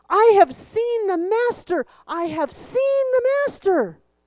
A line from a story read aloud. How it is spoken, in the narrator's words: She ran off shouting